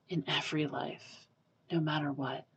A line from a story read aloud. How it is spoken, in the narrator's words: Kaui whispers